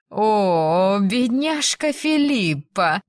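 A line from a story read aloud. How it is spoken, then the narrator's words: Drawled, feigned sympathy. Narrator (Russian): протянула она сделанным сочувствием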